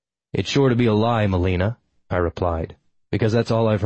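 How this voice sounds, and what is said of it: Usual voice. Nothing is said of it.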